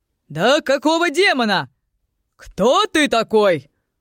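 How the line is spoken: Male shout. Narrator (Russian): выкрикнул мужской голос

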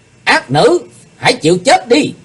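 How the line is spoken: Shout. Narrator (Vietnamese): Trước tiếng quát

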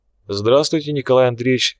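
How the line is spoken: Calm reply. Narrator (Russian): спокойно ответила та

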